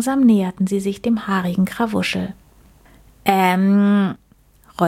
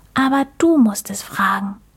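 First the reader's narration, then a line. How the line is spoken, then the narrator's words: Whisper. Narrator (German): flüsterte Mucks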